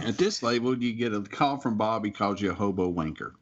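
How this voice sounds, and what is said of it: Texas drawl. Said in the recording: “that Texas drawl”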